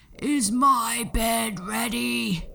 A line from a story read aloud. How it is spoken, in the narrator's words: the giant would growl